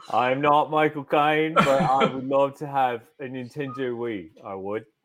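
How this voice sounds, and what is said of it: Michael Caine impression. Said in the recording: “Michael Caine probably called them too ... that's the accent I decided to go with”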